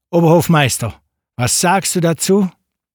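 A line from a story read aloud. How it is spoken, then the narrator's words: Caliph calling out. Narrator (German): Der Kalif runzelte die Stirn und rief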